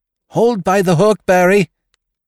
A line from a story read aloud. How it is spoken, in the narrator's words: she cried